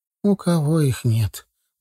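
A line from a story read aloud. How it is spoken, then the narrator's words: Tired. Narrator (Russian): устало ответила она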